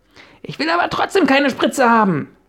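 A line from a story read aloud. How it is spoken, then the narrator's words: Shouted. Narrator (German): schrie Lotta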